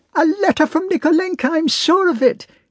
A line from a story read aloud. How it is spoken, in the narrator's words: exclaimed Natasha